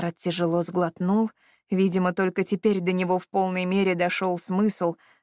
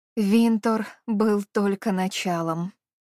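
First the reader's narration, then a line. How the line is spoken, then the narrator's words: Gloomy. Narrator (Russian): мрачно произнесла она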